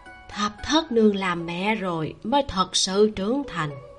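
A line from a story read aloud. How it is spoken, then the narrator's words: Smiling speech. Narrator (Vietnamese): La thị cười, rồi nói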